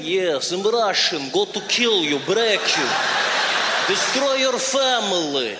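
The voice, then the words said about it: Menacing mock Russian accent. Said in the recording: “the Russian accent. There's nothing sexy about it. Everything the Russians say sounds dangerous and menacing.”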